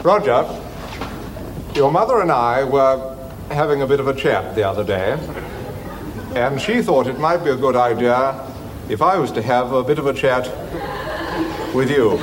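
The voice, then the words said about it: Old-fashioned posh British accent. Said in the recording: “really genuine, old-fashioned, posh British accent ... that kind of super posh way of speaking”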